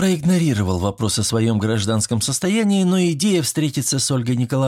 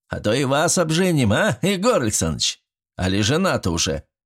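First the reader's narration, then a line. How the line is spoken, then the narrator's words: Chuckling. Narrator (Russian): хохотнул председатель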